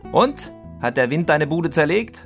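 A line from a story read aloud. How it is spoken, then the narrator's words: Father shouting across field. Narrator (German): rief der Vater über den Sportplatz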